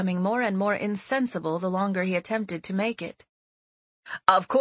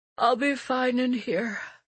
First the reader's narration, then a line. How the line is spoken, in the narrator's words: Seti said, stifling a yawn